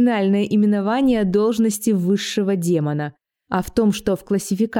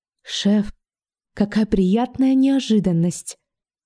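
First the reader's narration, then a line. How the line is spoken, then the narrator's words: Reverent whisper. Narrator (Russian): Черт-парламентер благоговейно прошептал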